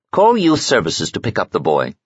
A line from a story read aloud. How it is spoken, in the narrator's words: said Michiko